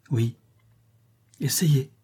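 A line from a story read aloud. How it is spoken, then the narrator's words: Softly repeated. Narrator (French): répéta doucement Marie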